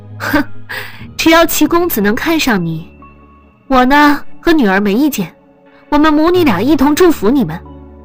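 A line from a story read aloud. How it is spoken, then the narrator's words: Breathless scoffing laugh. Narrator (Chinese): 黄子红一股闷气倒逼着她的呼吸，让她喘不过气来，但她却也活灵活现地哼笑着说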